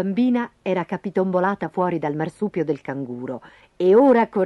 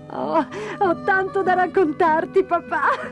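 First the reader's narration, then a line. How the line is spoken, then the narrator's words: Laughing. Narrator (Italian): rise Dora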